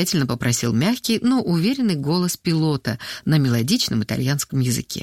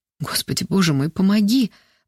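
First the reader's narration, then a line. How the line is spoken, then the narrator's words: Pleading. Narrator (Russian): взмолилась Алена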